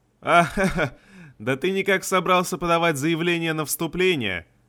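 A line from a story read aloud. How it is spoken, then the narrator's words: Dwarf laughing. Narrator (Russian): засмеялся один дворф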